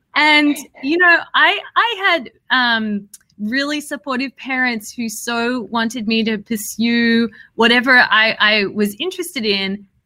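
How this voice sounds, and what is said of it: Australian accent. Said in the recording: “I grew up in Australia. I don't know if you can tell from my accent. ... And a little bit.”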